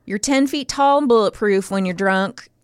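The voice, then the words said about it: Put-on Virginia accent. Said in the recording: “I'm really going to resist doing a Virginia accent. I'm just going ... I just wanted to do it that one time.”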